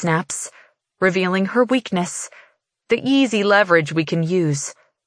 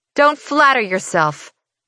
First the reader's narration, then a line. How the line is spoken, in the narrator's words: she snaps back